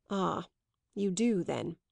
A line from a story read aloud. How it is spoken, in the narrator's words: her suitor murmured with bitterness